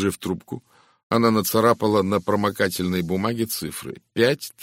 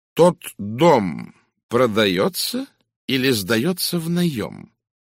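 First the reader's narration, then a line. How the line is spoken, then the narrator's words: Slow, distinct question. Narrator (Russian): медленно и отчетливо спросил Пуаро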